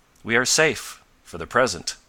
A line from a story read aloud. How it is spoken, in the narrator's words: exclaimed Jacinto with a sigh of relief